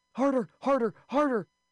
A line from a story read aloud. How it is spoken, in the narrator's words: she was reduced to yelling